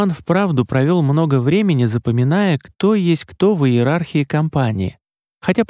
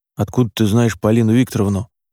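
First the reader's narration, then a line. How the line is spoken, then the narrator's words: Grumbling. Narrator (Russian): пробурчал Димка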